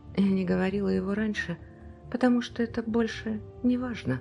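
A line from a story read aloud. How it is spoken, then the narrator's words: Whisper. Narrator (Russian): прошептала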